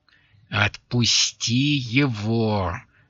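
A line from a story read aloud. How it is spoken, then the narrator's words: Angry hiss. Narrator (Russian): злобно шипел голос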